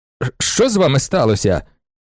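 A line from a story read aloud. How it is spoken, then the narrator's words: Exclaimed. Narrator (Ukrainian): вигукнув Старський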